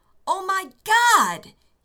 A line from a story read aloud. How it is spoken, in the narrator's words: yelled